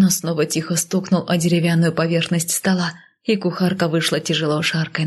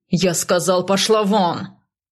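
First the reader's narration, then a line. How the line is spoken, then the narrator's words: Barked gruffly. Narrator (Russian): рявкнул северянин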